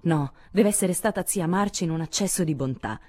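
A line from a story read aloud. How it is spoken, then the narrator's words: Inspired exclamation. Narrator (Italian): esclamò Joe come in preda a una subitanea ispirazione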